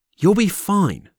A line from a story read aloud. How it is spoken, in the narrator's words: snapped Logo hastily